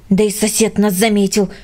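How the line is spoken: Irritated. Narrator (Russian): раздраженно сказал Петя

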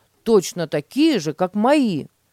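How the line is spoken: Excited exclamation. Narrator (Russian): воскликнул Петя

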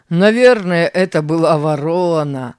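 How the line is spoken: Laughing. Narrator (Russian): рассмеялся Тим

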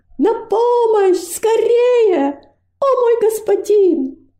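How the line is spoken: Screaming with all her strength. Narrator (Russian): Робость подняла голову к кажущемуся пустым небу и изо всех сил закричала

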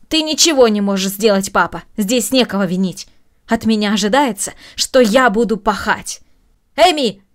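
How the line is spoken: Raised-voice shout. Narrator (Russian): повысив голос, крикнула Маша

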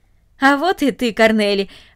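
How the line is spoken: Joyful. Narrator (Russian): радостно сказал он

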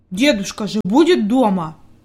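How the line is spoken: Angry grumble. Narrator (Russian): буркнул Питер сердито

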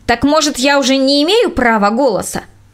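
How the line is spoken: Sharp. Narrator (Russian): женщина резко сказала

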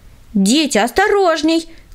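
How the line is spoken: Shouting. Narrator (Russian): крикнула им Таисия Михайловна

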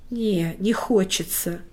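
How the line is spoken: Breathed out. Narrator (Russian): выдохнул Лёша

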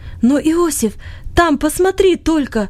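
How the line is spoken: Sudden cry. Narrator (Russian): вдруг вскрикнул он

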